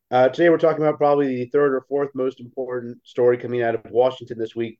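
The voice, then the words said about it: Congested voice from a cold. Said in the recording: “I have a head cold, so if I sound a bit weird”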